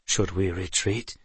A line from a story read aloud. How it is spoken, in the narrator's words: Lomo murmured